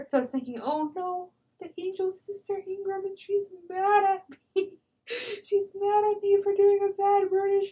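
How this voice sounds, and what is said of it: Laughing and crying while speaking. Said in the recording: “I'm actually getting a little misty-eyed over here ... much like I am now, I was both laughing and crying ... I'm surprised that I'm crying on microphone”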